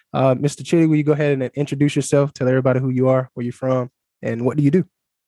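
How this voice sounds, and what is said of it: American accent. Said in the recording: “the American accent”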